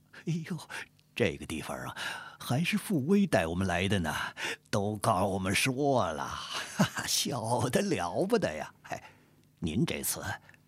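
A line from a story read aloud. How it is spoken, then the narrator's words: Laughing. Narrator (Chinese): 贾富春笑着说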